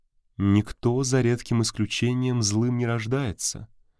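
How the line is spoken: Plain. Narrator (Russian): сказала Валитара

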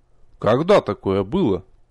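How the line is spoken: Puzzled. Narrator (Russian): озадачился я

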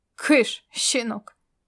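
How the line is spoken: Good-natured booming. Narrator (Russian): добродушно прогудел Ирвинг

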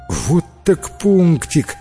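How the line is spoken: Exclamation. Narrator (Russian): воскликнул Джимми

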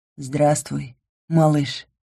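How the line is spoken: Tender singsong. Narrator (Russian): ласково пропел Ингар

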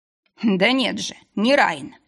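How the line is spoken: Chuckling necromancer. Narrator (Russian): Некромант хохотнул

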